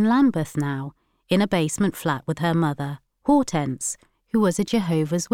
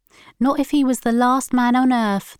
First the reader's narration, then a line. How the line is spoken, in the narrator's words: they said